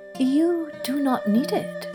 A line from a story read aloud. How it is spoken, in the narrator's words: said the hermit quietly